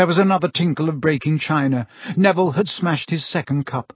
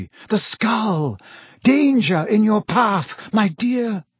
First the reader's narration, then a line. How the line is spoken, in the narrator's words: Professor Trelawney, who gasped, and then screamed